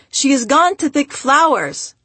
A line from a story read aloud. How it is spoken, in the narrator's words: My family yelled the traditional response